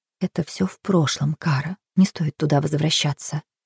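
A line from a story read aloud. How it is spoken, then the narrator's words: Very quiet. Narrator (Russian): сказала очень тихо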